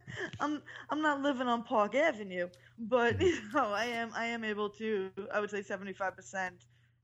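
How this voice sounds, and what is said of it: Deep New York accent. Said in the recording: “one thing you cannot hide is your New York accent ... it's pretty deep”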